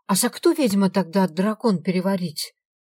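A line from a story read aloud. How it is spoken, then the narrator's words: Abrupt. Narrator (Russian): Не желая вступать со мной в полемику, резко сменила тему Аленка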